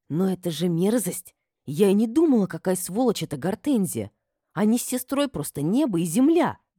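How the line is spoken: Indignant hiss. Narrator (Russian): Возмущенно прошипела Айна

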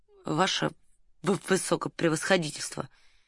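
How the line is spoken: Quiet. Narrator (Russian): тихо сказал Ираст Петрович

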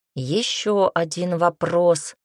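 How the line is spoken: Deep bass voice. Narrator (Russian): пробасил Нокс

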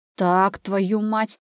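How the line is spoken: Roaring, losing patience. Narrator (Russian): не выдержав, взревел Иван

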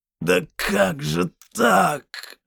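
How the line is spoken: Groan. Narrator (Russian): простонал Геральт

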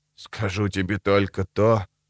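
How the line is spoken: Muttered, lips barely moving. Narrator (Russian): пробормотал он, едва шевеля губами

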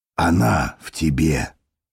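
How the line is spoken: Soft speech. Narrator (Russian): мягко говорил Парцесс

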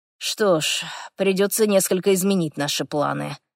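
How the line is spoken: Sigh. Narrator (Russian): вздохнул Хорвик

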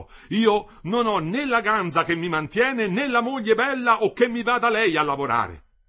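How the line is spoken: Anxious, bitter shouting. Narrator (Italian): tutto ansia ora e tutto bile, gridò

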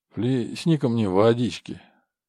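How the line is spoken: Hoarse croak. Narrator (Russian): Валера прохрипел

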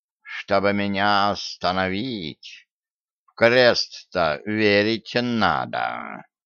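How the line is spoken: Hissed. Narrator (Russian): прошипел Васька

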